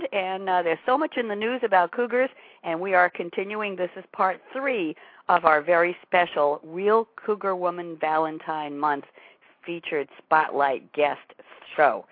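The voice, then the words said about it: Slightly raspy voice. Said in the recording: “a little raspy”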